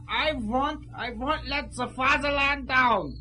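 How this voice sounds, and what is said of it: Put-on accent. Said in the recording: “Drop the accent.”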